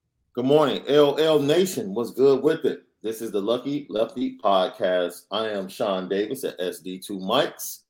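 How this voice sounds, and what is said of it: Slightly hoarse voice. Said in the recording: “We both are probably a little hoarse this morning.”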